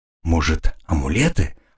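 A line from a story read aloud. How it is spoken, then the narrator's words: Whisper. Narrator (Russian): прошептала Розина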